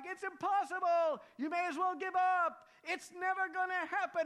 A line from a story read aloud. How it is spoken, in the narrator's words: people in the crowd began shouting out things like